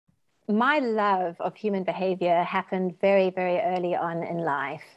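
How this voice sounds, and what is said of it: English accent. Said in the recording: “from across the pond and their lovely accents”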